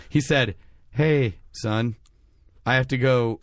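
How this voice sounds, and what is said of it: Imitates another person's voice. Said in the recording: “you do a terrible impression of your dad.”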